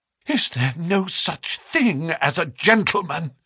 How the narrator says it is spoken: she gasped

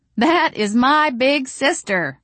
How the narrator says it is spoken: I said loudly

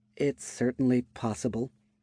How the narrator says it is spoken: Aurevie spoke in a serious tone

